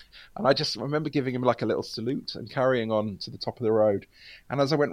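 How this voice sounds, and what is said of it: Usual voice. Nothing is said of it.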